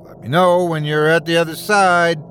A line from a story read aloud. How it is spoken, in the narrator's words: called Callum, his voice booming through the passageway